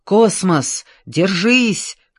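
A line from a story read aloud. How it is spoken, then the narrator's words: Shout. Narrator (Russian): крикнула Аня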